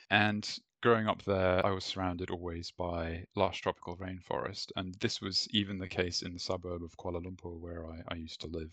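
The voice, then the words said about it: English (British) accent. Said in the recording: “I have this sick Pommy accent, which I picked up at secondary school and university in the UK.”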